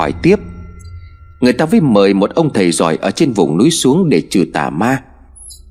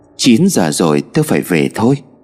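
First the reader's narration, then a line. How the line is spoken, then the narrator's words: Sighing. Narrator (Vietnamese): Chị chợt thở dài rồi nói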